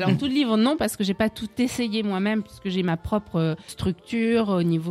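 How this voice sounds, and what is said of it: Usual voice. Nothing is said of it.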